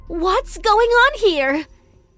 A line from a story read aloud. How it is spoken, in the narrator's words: She screamed angrily